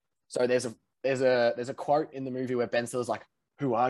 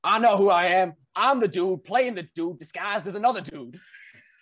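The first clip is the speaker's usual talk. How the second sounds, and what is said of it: Imitates a film character's accent. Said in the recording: “I'll do the accent ... I didn't want to butcher it”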